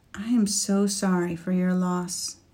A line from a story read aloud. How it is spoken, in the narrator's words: said quietly